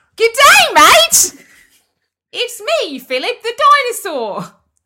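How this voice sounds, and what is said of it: Loud put-on character voice with accent. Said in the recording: “That is a South African accent. ... Philip is really loud, isn't he?”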